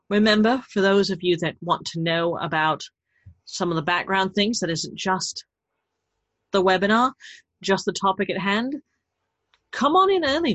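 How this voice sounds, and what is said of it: Thick, increasingly heavy accent. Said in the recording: “the sliding accent that's getting deeper and more atrocious as I'm getting sleepier”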